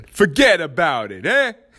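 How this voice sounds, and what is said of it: Put-on Italian accent. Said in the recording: “That's my Italian accent.”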